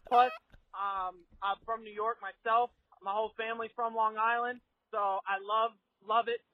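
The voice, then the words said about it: Southern-sounding American accent. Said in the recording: “that is the weirdest Long Island accent I've ever heard ... came out with a southern accent”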